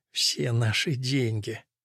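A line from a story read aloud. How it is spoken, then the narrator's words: Whisper. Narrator (Russian): мать прошептала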